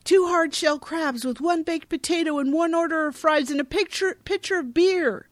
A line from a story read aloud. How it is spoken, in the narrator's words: yelling across the room